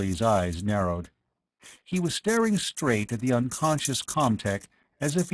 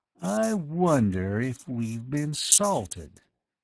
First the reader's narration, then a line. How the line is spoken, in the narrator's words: he said slowly